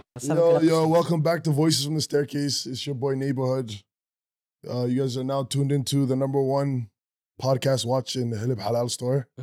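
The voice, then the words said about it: Voice sounds hoarse from a cold. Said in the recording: “Don't mind my voice today. My voice is a little cold, you know? We'll just say cold.”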